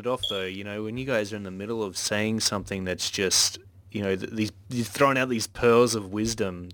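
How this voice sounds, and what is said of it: Soothing Australian accent. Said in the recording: “soothing Aussie accent”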